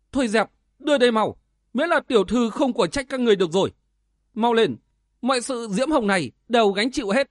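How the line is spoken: Angry young girl. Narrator (Vietnamese): Cô bé áo đỏ tức giận

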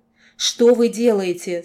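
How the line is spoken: Cracking voice cry. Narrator (Russian): срывающимся голосом вскрикнула я

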